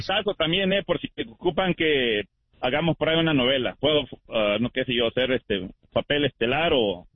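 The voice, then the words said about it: Radio announcer voice. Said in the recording (Spanish): “tremenda voz de locutor ... tiene voz de locutor ... tremenda voz”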